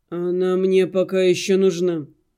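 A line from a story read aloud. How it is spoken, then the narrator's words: Tired reply. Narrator (Russian): устало ответил Арина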